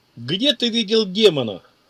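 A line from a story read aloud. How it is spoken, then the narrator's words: Barking. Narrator (Russian): рявкнул Опцион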